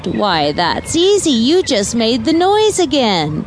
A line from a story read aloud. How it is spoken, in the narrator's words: Pearl giggled out